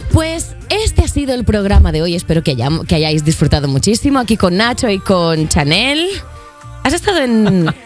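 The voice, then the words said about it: Radio host announcer voice. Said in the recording (Spanish): “poner voz de locutora”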